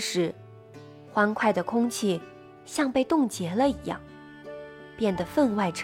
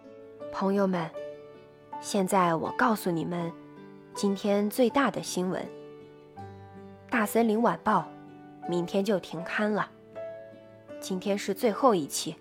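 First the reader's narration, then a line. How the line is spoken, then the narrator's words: Low, deep voice. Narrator (Chinese): 他声音低沉地说道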